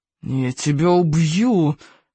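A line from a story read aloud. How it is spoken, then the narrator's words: Hissing. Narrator (Russian): прошипел Смаркала Икингу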